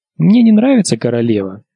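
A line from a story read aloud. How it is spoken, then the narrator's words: Calm. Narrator (Russian): спокойно отвечала Арья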